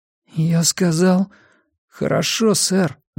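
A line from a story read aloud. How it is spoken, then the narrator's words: Trembling voice. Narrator (Russian): дрожащим голосом повторил Арни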